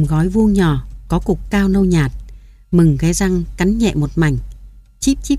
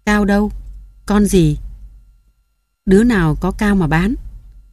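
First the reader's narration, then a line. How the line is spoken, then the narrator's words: Deep gruff voice. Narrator (Vietnamese): Mừng ồm ồm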